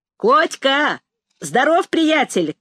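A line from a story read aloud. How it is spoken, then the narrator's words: Shouting from above. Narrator (Russian): крикнул сверху Расщепей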